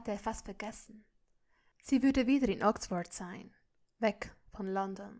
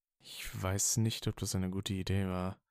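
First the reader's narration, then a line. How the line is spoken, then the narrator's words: Murmured. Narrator (German): murmelte er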